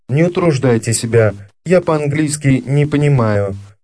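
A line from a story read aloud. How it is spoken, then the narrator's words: Very calm speech. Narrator (Russian): очень спокойно сказал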